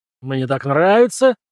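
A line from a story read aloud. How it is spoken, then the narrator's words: Growl. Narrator (Russian): рыкнул Джон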